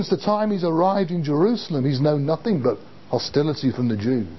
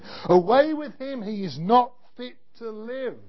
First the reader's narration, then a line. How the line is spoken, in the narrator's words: they raise their voices and shout again